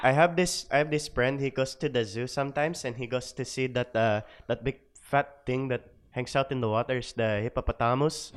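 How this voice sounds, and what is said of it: Put-on Filipino accent. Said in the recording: “you got to do the Filipino accent ... You want me to do the Filipino accent”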